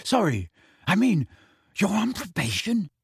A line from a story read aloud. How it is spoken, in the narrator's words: he whispered